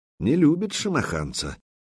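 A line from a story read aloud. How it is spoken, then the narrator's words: Quiet speech. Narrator (Russian): негромко произнес Духарев, обращаясь к Добрыне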